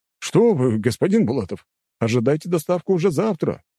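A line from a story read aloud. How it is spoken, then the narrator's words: Exclaiming. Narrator (Russian): воскликнул тот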